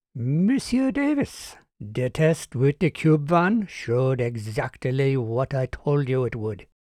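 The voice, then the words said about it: Slight French or Jamaican accent. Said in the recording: “She spoke with a trace of a French accent, or perhaps it was Jamaican.”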